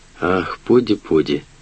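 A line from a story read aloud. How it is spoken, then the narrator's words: Soft. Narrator (Russian): мягко проговорил он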